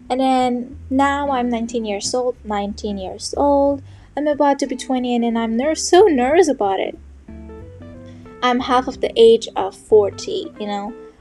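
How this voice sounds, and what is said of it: Non-native English accent. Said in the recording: “my English ... or my accent”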